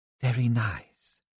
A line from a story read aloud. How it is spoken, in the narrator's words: she murmured